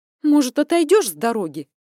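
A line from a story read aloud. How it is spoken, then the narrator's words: Irritated. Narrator (Russian): Раздраженно зыркнула я на него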